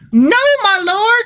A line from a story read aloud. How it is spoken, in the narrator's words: cried